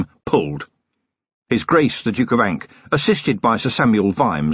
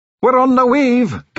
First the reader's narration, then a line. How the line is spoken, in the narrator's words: Gastric shouted